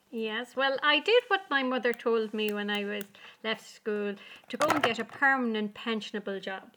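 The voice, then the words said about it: Irish accent. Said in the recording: “from your accent that you're in Ireland”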